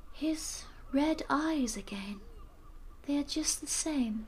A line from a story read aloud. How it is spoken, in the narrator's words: Lucy murmured as if to herself